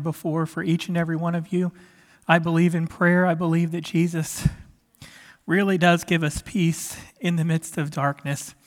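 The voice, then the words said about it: Weak recovering voice, extra breaths. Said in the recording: “my voice is still getting back, and so I got to take some extra breaths”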